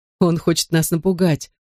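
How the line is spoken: Short laugh. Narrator (Russian): хохотнул Бен

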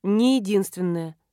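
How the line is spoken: Sighing. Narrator (Russian): вздохнула она

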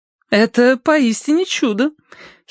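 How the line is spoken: Giggling. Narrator (Russian): хихиканье с кушетки

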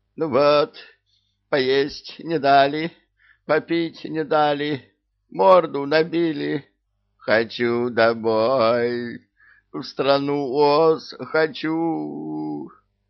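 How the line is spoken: Pitiful crying. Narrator (Russian): Обезьянка плакала так жалобно

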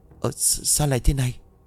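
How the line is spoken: Shocked trembling woman. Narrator (Vietnamese): Chị bán hàng trợn mắt run rẩy cất tiếng

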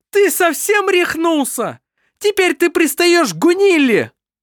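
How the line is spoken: Exclaiming. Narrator (Russian): Воскликнула она

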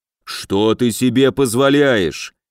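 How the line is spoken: Orc's growl. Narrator (Russian): прорычал орк

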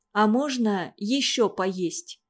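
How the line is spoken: Dejected question. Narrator (Russian): упавшим голосом спросил

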